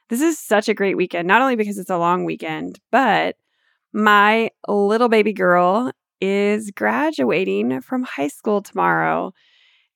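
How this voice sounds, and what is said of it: Excited, upbeat voice. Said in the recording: “if you can hear it in my voice, I am just so excited”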